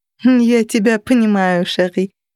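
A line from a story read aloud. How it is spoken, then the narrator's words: Laughing. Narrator (Russian): рассмеялась она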